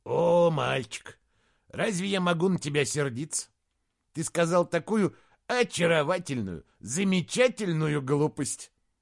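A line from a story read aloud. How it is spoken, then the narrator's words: Pleased soft chesty laugh. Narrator (Russian): Доктор с довольным видом рассмеялся тихим грудным смехом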